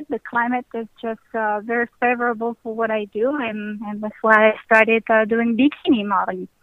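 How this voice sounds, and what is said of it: Attractive foreign accent. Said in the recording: “you have a really sexy accent ... people are going to love your accent”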